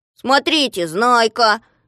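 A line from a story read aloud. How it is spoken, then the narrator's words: Shout. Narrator (Russian): закричал кто-то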